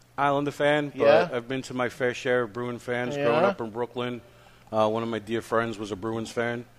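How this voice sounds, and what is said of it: Brooklyn accent. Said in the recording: “being from Brooklyn ... my Brooklyn accent”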